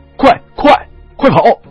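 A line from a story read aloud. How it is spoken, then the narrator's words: Urgent shout. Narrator (Chinese): 他转头对庙里的我们喊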